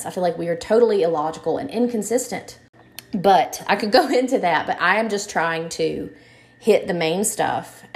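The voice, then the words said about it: Tired, exasperated tone. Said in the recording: “if you can tell from my tone of voice, I'm just tired of the inconsistencies”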